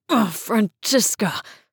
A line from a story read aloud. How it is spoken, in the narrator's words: Seb groaned